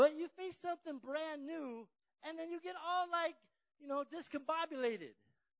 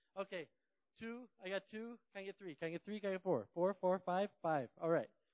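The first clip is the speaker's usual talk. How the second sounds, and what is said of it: Poor auctioneer chant impression. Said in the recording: “That was my best impression of an auctioneer. I apologize, it was pretty bad.”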